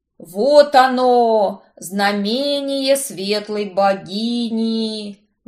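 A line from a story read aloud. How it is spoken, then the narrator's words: Fanatical pastor exclaiming. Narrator (Russian): воскликнул пастор с видом свихнувшегося фанатика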